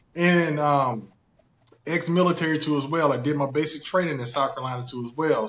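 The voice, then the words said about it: Thick Southern country accent. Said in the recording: “thick country accent”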